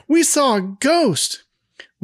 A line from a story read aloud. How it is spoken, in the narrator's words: Cindy yells